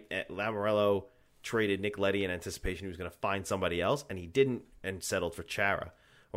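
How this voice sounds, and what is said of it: Strong New York accent. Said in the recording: “New York accent came up hard.”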